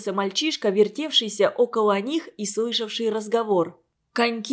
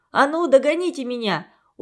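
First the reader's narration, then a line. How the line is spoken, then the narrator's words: Cheerful smiling shout. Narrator (Russian): Улыбаясь во весь рот, крикнул он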